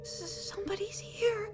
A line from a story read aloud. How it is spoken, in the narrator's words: Meekfoot whimpered